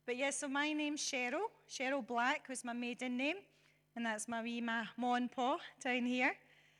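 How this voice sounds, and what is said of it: Hoarse, weak voice. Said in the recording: “Excuse the voice. I've lost it. It's just coming back again, so it might cut out on me a little bit.”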